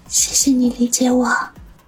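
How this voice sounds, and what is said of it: Speaking quietly, hushed. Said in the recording (Chinese): “小声的说道”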